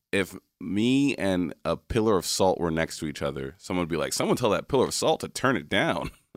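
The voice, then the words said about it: Radio voice. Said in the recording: “Radio voice, for sure ... Oh, radio voice, I agree with.”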